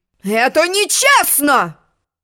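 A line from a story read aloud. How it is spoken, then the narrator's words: Sudden roar, unicorn. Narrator (Russian): взревел вдруг единорог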